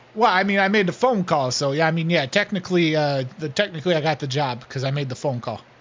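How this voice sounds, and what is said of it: New York Brooklyn accent. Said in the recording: “with the accent? ... What, you from New York? ... Yeah, Brooklyn.”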